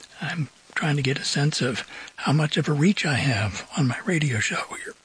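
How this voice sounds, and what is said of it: Slightly hoarse voice. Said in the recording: “a little bit hoarse today... When allergies come around, my voice tends to change. Sometimes it gets higher pitched, sometimes it gets lower pitched.”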